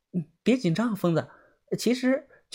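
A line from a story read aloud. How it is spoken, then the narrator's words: Soft, comforting. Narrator (Chinese): 小轩小声的安慰道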